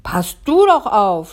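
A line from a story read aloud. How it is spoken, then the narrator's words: Shouting. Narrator (German): schreit Kai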